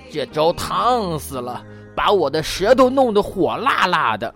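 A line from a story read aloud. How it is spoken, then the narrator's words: Roaring big father. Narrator (Chinese): 大块头的熊爸爸咆哮起来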